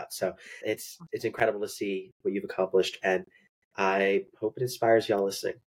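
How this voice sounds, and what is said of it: Congested voice with a cold, cracking. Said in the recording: “my voice like cracked in the middle. ... I have a cold right now”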